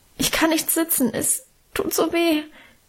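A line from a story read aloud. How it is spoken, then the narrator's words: Whining in pain. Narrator (German): jammerte ich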